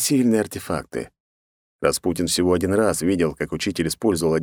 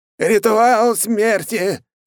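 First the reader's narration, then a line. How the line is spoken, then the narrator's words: Man shouting again. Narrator (Russian): повторно закричал китаец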